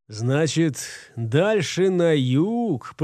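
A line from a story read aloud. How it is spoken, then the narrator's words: Drawling. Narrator (Russian): протянул Гортер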